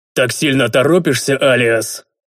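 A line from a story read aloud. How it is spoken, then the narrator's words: Deep booming voice. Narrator (Russian): Глубокий сильный голос прогремел над лугом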